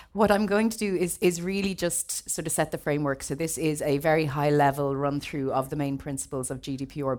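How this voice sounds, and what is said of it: Croaky, strained voice. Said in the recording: “You'll have to excuse my voice. I'm a bit croaky. I've been doing far too much talking”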